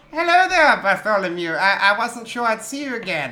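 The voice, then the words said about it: Character voice with an accent. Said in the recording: “I'm so happy that you've given me another chance to do this accent”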